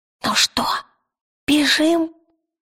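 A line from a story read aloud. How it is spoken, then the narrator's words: Whisper. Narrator (Russian): шепнул он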